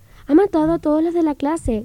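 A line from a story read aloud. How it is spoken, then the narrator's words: Shouted. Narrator (Spanish): gritó Mike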